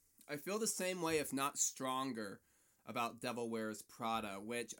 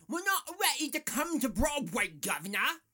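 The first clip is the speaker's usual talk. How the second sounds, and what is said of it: Put-on British accent. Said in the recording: “That's my British impersonation. I think it's dead on, but don't ask me.”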